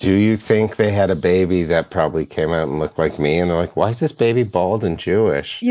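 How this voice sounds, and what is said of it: Usual voice. Nothing is said of it.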